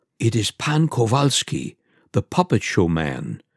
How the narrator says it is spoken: said Pan Kolesa in an undertone

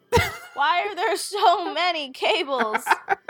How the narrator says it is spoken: screams at the ground

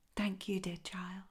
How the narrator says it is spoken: whispered the sick swallow

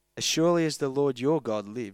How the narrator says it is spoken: she replied

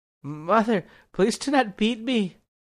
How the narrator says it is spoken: he whimpered

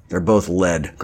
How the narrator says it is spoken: Grant muttered

